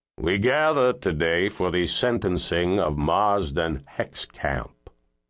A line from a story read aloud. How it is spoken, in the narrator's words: Penfield intoned